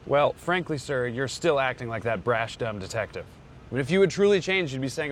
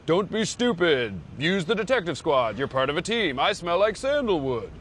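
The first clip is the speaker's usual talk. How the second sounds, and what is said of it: Poor imitation of another person's voice. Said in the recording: “terrible impression”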